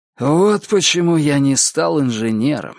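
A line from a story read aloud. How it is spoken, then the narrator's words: Sighing. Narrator (Russian): вздохнул Гарри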